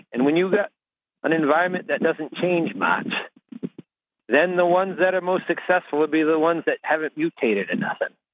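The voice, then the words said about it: Rural Maine accent. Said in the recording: “I just love his accent... if you're calling in from rural Maine, if you can talk like that”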